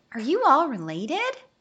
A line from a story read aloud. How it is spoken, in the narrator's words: The sugar glider gasped in horror